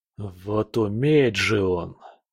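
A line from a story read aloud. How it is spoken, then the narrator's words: Grumbling low growl. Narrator (Russian): проворчал с тихим рыком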